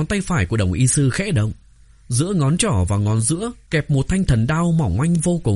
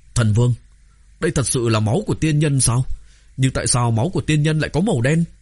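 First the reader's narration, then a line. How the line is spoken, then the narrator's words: Frightened. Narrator (Vietnamese): Bảo Thiên Tướng kinh hãi, nói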